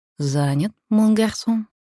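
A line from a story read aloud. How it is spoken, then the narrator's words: Gentle question. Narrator (Russian): мягко спросил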